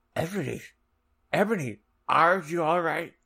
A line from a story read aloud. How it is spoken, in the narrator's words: asked Draco in a worried voice